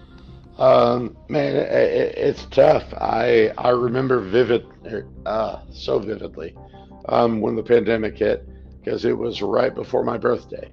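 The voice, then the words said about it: Slightly raspy voice. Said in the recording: “the voice is getting a little raspy”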